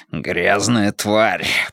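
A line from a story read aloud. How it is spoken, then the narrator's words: Growled. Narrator (Russian): прорычал он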